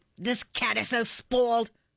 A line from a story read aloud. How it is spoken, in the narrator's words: she replied angrily